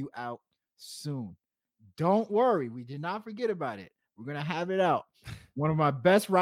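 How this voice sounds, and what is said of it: Usual voice. Nothing is said of it.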